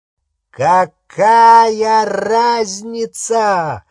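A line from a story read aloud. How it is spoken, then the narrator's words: Shouted. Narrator (Russian): выкрикнул Волан-де-Морт, до этого жадно впивавший каждое слово, и разразился раскатами безумного хохота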